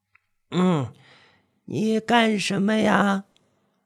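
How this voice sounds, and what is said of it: Very old, aged-sounding woman's voice. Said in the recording (Chinese): “她的声音比她的人还要苍老”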